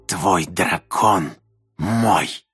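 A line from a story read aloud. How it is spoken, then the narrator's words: Hissed into ear. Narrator (Russian): прошипел Орен мне в ухо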